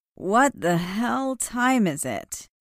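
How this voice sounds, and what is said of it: Grouchy, groggy, hoarse just-woken voice. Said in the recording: “a grouchy, groggy, hoarse voice answered. It was obvious that Zoe had woken Chandler.”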